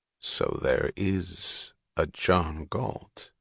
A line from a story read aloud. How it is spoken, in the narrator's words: he asked slowly